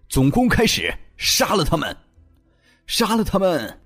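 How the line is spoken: Furious shouted command. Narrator (Chinese): 叶团长心中情绪激荡，怒吼着命令

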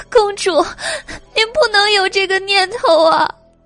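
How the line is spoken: Alarmed crying. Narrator (Chinese): 青梅大惊失色，哭道

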